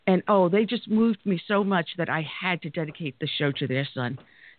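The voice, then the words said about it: Emotional, moved voice. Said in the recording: “I'm a little bit emotional right now.”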